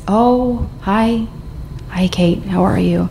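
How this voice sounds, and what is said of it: Small, broken, frail voice. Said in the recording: “In this broken little voice.”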